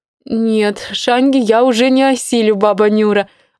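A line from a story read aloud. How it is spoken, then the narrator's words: Laughing. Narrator (Russian): засмеялась Инна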